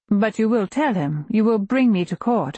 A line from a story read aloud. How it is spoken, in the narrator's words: I say, trying to keep my voice light and inconsequential